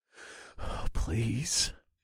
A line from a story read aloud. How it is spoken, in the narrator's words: groaned in a barely audible voice